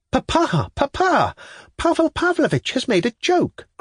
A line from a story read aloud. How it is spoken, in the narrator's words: cried several at once